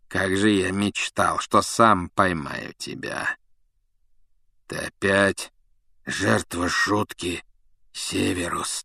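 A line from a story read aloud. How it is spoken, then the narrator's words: Hoarse rasp. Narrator (Russian): прохрипел Блэк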